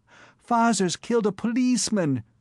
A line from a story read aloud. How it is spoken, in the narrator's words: cried the tiny eager voices